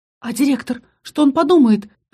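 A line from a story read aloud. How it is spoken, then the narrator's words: Squeaked. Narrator (Russian): пискнула я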